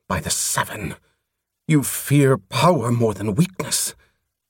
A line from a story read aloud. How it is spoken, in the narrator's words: he hissed